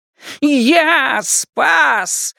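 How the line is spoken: Howling wolf. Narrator (Russian): взвыл волк

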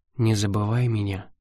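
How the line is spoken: Sad hopeless whisper. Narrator (Russian): прошептала она, но так печально, словно заранее знала, что ее просьба напрасна

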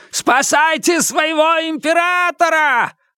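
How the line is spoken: Yelling at full voice. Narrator (Russian): орал во все горло

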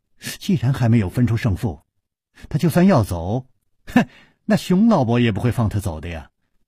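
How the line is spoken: Laughing. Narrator (Chinese): 柳无梅笑着说

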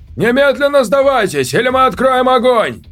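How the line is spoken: Shouting. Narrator (Russian): крикнул

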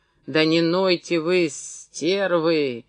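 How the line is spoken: Sullen, irritated snap. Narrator (Russian): Угрюмо и раздраженно бросал им Демид Меньшиков

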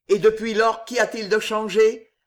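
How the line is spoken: Asked coldly. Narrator (French): demanda froidement d'Étiol

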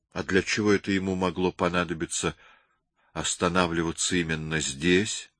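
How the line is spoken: Suddenly hoarse question. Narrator (Russian): спросил Берни враз охрипшим голосом

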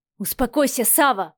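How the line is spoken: Impatient bark. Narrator (Russian): потеряв терпение, рявкнул вечно спокойный Михаил

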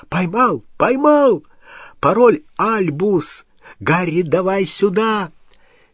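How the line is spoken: Excited shout. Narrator (Russian): вдруг Рон взволнованно закричал

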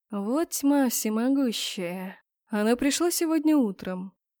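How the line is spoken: Quiet. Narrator (Russian): так же тихо сказал мужчина

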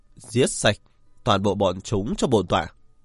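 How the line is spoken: Cold commanding voice. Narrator (Vietnamese): Một thân ảnh uy vũ lạnh lùng mở miệng nói

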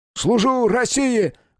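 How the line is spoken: Loud barked shout. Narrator (Russian): гаркнул я

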